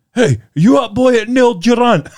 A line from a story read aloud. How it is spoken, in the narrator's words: I shouted out to Simpson